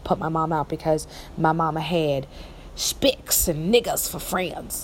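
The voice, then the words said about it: Weak put-on country accent. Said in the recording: “I have a better country accent than that”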